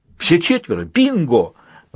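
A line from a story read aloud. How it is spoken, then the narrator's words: Exclaiming. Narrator (Russian): воскликнул ангел железной книги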